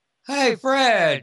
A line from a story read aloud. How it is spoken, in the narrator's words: Amelia shouts from the back room